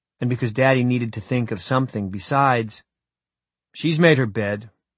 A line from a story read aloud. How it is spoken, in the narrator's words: I said in a harsh voice that didn't sound like my own